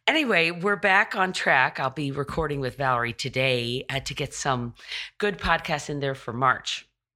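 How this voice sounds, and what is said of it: Froggy, hoarse voice. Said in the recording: “my voice is still very froggy and very. Uh, it in my throat”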